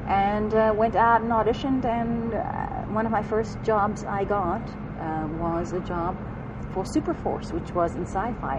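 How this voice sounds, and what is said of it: Thick South African accent. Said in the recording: “my accent. Although right now I'm very thick because I just came back from South Africa”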